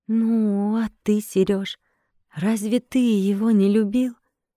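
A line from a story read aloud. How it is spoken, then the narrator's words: Mother's quiet reply. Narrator (Russian): мать тихо ответила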